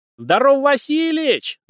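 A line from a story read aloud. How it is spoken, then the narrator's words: Loud yell. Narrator (Russian): заорал он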